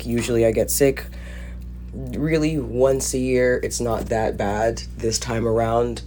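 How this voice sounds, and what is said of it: Sick, congested-sounding voice. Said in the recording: “I'm not sure if you can hear it in my voice, but yes, you guessed it. I've gotten sick.”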